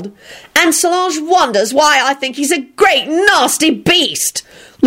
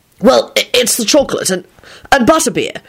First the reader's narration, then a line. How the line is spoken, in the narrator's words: he stammered out